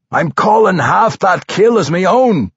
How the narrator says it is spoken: roared, running

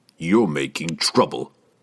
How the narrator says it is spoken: Jerden growled

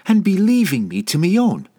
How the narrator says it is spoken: shouted at him

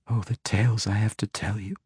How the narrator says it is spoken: she whispered in his ear

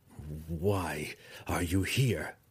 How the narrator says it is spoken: Drizzt stammered at her

